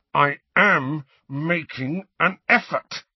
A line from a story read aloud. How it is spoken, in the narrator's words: he said through clenched teeth